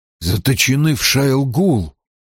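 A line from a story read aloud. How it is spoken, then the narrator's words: Whisper. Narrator (Russian): прошептал Перин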